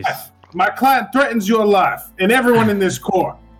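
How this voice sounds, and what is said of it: Put-on sophisticated fantasy accent. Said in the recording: “Is that an accent down from the Library of Ioun? ... it's like a sophisticated, you know, speech ... The Southern Continent accent right there.”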